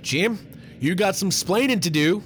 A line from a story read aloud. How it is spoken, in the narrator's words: Maud's father yelled